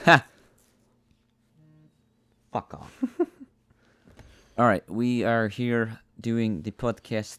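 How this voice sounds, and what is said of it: Unidentified put-on accent. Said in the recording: “I don't know what accent I'm doing.”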